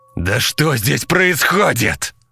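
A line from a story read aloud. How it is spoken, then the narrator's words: Full-throated yell. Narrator (Russian): заорал Кросби во все горло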